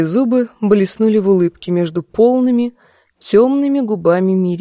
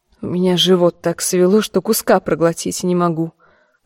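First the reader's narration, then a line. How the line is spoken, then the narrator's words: Grumbled. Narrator (Russian): проворчала в ответ она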